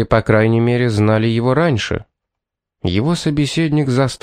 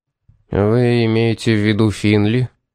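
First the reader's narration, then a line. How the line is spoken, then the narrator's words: Gloomy question. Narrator (Russian): спросил он мрачно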